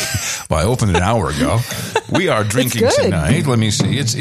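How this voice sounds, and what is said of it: Usual voice. Nothing is said of it.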